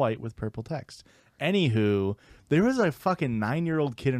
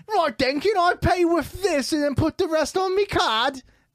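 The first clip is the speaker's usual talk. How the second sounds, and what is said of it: Put-on British accent. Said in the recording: “doing a voice ... British people aren't real.”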